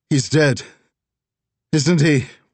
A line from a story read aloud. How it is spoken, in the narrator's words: Reagan called out